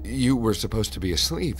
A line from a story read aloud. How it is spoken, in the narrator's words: she said nervously